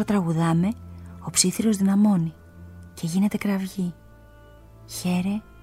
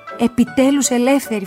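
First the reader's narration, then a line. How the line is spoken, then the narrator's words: Shouted. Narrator (Greek): φωνάζω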